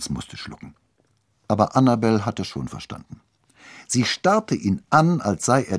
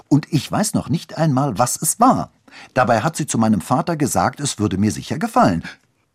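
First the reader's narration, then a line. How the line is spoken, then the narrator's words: Angry. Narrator (German): sagte Annabel wütend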